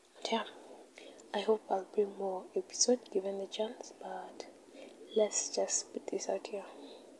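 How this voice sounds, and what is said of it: Low, tired voice. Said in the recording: “my voice is now low ... A bitch is tired”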